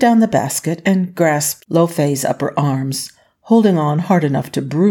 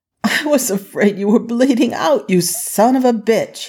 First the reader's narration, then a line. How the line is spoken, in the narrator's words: said, halfway between laughing and scolding